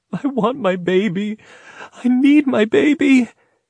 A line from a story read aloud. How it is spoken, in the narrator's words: Breaking down in sobs, she cried